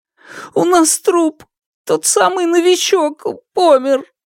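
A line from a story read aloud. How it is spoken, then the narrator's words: Trembling voice. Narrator (Russian): дрожащим голосом ответил Шунь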